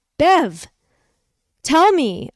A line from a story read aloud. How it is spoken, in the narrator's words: I cried, feeling the fear in my voice